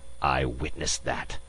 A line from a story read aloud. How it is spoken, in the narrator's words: the ambassador hissed